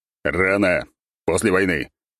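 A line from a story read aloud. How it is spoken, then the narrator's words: Stern declaration. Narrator (Russian): строго заявил я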